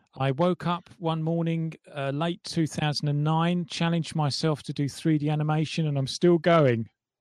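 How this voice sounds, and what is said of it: English accent. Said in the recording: “I love the accent, dude. ... We are coming to you from England.”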